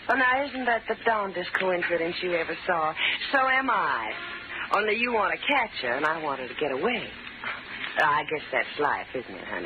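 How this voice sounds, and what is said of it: Southern American accent. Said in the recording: “a southern accent”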